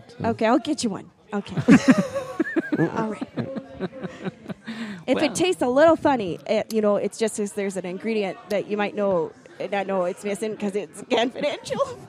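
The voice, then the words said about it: Minnesota accent. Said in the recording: “Is it kind of a Minnesota accent? ... Oh my gosh, we have a winner.”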